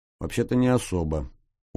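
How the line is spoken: Glum agreement. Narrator (Russian): уныло согласился тот

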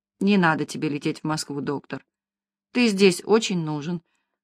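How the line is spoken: Soft gentle tone. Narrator (Russian): произнес он тихо и ласково по-абхазски

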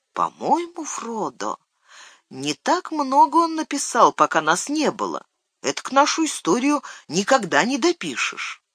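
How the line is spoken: Quiet speech. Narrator (Russian): Сэм тихонько произнес

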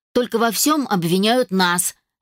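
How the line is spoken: Sharp. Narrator (Russian): резко произнесла Мелисса

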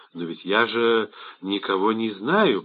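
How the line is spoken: Muttering. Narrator (Russian): пробормотал он

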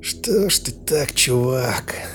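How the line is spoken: Sympathetic mumble. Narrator (Russian): пробормотал сочувственно

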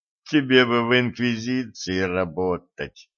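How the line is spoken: Young man groaning. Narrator (Russian): простонал юноша

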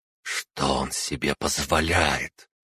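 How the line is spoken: Hissing. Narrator (Russian): прошипела Арана, причем, кажется, по специальному каналу, прокинутому ею между нами

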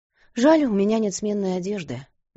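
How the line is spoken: Sighing. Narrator (Russian): вздохнула она

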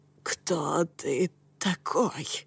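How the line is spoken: Strangled voice. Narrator (Russian): сдавленным голосом спросила верховная ведьма

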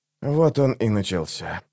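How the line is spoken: Whisper. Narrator (Russian): прошептал алхимик

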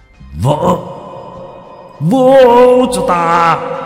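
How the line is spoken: Roar. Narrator (Vietnamese): Trung hội gầm lên

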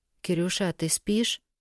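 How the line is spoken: Whisper. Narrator (Russian): шепотом спрашивала

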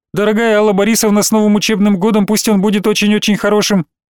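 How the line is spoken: Rapid memorized rattle. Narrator (Russian): Оттараторила заученная

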